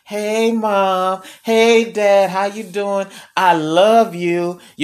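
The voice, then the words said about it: Soft, sweet, happy child-like voice. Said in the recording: “put on that little soft voice, that little happy voice, like they're so glad to see ... they're trying to sweet talk you”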